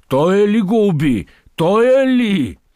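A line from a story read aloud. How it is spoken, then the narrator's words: Crowd shouting. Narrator (Bulgarian): викнаха наоколо кърджалиите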